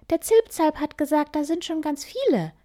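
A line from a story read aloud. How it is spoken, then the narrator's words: Excited. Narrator (German): antwortet Piepmatz aufgeregt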